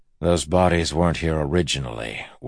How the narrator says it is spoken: Wax said dryly

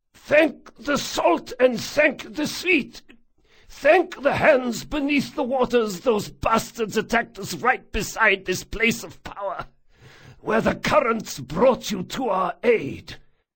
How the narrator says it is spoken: The man's theron was precise, though heavily accented, and his voice was unsurprisingly hoarse

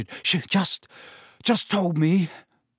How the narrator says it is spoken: Harry panted

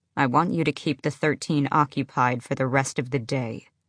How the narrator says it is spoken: Manon said

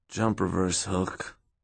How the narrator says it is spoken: Park groaned

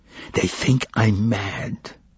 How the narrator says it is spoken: he whispered, and tears like drops of wax flowed from his eyes

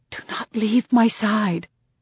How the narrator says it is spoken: I say under my breath

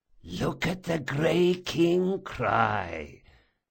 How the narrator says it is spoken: whispered Barsavi

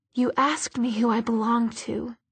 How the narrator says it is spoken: he whispered

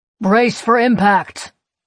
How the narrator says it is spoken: one of them shouts

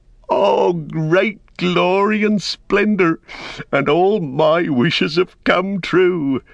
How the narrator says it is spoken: Sam, he laughed aloud for sheer delight, cried

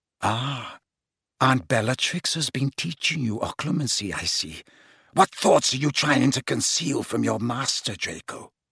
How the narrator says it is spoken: Snape said quietly

